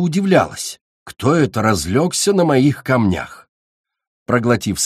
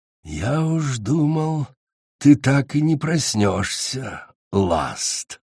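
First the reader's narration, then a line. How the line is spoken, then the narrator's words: Insinuating hiss, dragon. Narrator (Russian): вкрадчиво прошипел зеленый дракон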